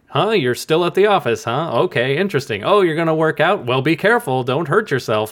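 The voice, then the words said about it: Put-on phone conversation voice. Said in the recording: “we can tell by the voice ... you put on an effective voice. And that was the cue that you have a phone next to your head”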